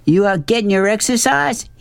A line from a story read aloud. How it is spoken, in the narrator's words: hollered